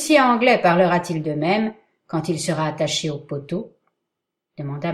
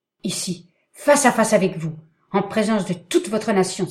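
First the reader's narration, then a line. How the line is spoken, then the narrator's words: Exclaiming. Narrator (French): s'écria Heyward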